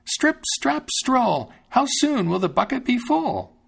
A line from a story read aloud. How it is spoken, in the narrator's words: he cried out